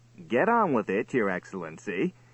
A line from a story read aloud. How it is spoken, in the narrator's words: chuckled Faljapan